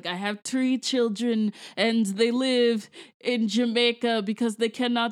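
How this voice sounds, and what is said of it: Bad put-on Jamaican accent. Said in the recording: “It's a bad Jamaican accent, so that is what I am doing. Like it's basically like a Drake level Jamaican accent.”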